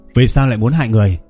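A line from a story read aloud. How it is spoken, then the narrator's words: Loud shout. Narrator (Vietnamese): Lâm Hiệp Phong quát lớn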